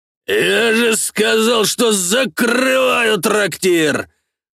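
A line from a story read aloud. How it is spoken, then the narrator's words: Roaring. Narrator (Russian): Взревел знакомый мне голос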